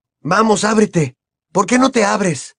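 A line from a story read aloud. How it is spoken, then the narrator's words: Irritated exclamation. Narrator (Spanish): exclamó irritado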